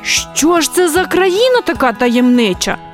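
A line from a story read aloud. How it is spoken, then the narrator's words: Exclaiming in near unison. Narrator (Ukrainian): ледь не в один голос вигукнули друзі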